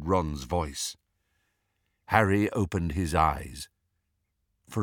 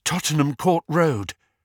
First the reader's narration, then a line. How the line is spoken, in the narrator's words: panted Hermione